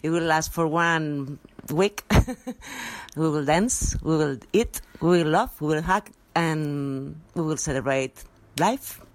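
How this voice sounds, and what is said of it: English with slight Spanish accent. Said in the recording (Chinese): “她的这个英文呢是有一点西班牙语腔的这个英文哦”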